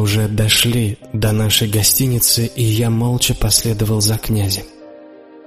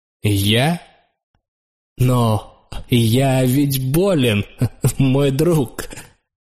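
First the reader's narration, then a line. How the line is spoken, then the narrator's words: Sharp laugh. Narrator (Russian): резко засмеялся князь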